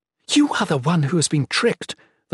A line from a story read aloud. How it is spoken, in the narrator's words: the Shalane spat